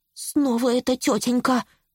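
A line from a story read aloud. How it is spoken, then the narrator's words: Horrified muttering. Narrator (Russian): в ужасе пробормотал он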